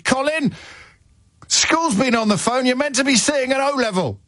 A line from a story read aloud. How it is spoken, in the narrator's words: dad shouted